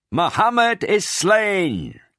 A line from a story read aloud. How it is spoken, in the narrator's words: A voice, perhaps that of Ibn Kamiyah himself, was heard to shout